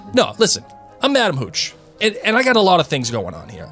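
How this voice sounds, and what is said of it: Put-on New York accent. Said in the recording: “Does Madame Hooch have like a New York accent?”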